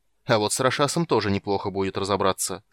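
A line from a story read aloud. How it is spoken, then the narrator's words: Angry. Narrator (Russian): сказал Танис зло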